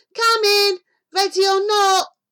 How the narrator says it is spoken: he shouted

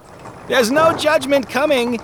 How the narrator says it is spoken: he called out the window as the coach pulled away

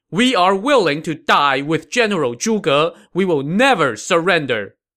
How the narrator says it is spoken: as one, they all shouted

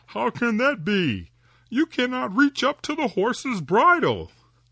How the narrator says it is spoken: the woodman laughed and said

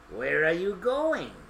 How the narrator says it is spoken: growled the wolf

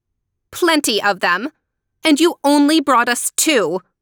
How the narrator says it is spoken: Helena cried angrily

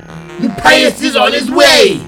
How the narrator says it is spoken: She shouted

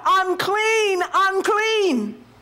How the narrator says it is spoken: with that same uplifted voice, he begins to shout

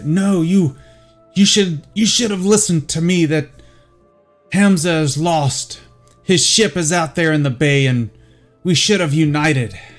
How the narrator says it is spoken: a Varricon hollering

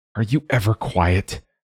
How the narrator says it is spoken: she snapped into the empty air

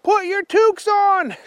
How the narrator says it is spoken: shouted William

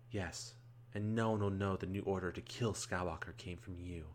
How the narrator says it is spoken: Geary says, happily, a smirk across her face

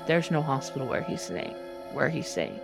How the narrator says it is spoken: I told my brother under my breath

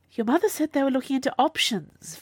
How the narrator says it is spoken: Viola said desperately

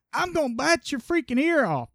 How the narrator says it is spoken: Tyson had screamed

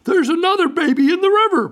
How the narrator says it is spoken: She shouted

